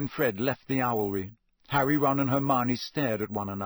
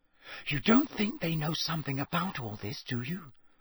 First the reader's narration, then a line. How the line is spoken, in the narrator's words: Hermione whispered